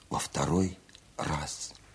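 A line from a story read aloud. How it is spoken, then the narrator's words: Whispered. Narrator (Russian): шепотом произнесла Варя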